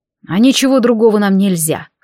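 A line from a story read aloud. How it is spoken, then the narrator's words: Wry snort. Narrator (Russian): хмыкнул Деваль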